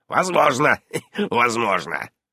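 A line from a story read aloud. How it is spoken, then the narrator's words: Mocking mimicry. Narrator (Russian): насмешливо передразнил Сущ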